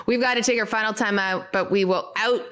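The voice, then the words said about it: Canadian accent. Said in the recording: “sounded so Canadian. I've tried to get rid of my Canadian accent.”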